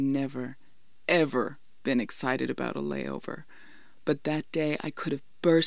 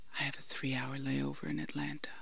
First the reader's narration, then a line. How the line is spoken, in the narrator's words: he whispered